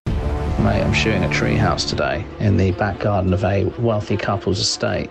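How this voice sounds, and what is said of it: Cinematic twang in the voice. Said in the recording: “You actually have quite a cinematic twang to your voice.”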